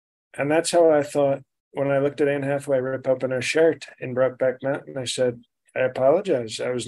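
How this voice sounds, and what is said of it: Usual voice. Nothing is said of it.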